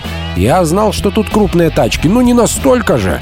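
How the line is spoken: Plain. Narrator (Russian): сказал я

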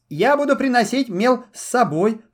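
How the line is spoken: Babbling. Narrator (Russian): пролепетал Буратино

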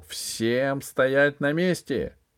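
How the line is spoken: Wild thundering voice. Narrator (Russian): прогремел дикий голос

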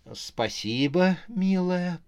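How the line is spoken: Cooing. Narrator (Russian): проворковала Рожа

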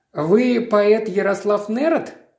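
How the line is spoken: Plain. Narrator (Russian): спросил Мейзлик

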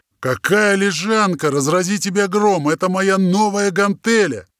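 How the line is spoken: Big man's hoarse wheeze. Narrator (Russian): просипел здоровяк

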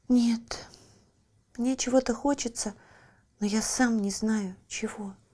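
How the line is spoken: Child sighing. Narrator (Russian): вздохнул ребенок

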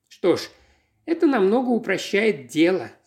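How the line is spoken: Relieved sigh. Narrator (Russian): с облегчением вздохнула мисс Марпл

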